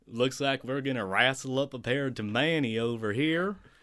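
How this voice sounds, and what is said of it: Put-on Texas accent. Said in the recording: “Texas accents”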